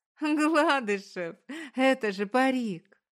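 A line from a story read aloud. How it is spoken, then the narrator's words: Explaining between fits of laughter. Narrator (Russian): Поясняет она между приступами хохота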